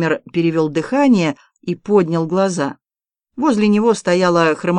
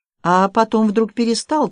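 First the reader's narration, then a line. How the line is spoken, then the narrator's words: Timid young woman. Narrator (Russian): продолжала девушка, робко поглядывая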